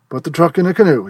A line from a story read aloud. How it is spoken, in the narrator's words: cried